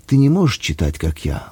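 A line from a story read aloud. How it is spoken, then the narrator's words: Tender, affectionate. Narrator (Russian): ласково говорила она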